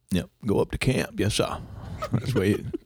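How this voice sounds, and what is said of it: Put-on Maine accent. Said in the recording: “my Maine impersonation ... impersonating the Maine accent”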